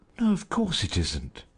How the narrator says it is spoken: she said, smiling rather anxiously

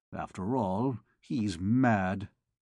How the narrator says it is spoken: calmed down, muttering in a low tone

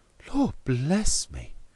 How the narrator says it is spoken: cried Mr

